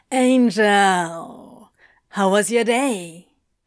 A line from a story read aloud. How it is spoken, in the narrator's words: a cheery voice drawled